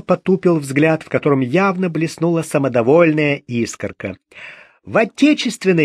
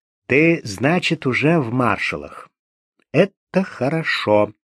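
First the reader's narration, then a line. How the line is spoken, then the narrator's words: Quiet thoughtful, to himself. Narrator (Russian): задумчиво больше для себя тихо проговорил Гуров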